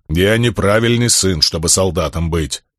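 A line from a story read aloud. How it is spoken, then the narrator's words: Stubborn grumble. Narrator (Russian): упрямо проворчал камень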